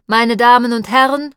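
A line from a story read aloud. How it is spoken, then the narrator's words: Loud again. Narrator (German): sagte er, jetzt wieder laut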